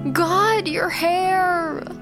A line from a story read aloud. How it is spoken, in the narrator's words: Hannah groans